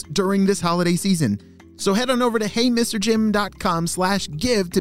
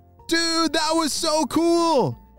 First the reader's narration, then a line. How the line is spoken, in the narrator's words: shouted Weston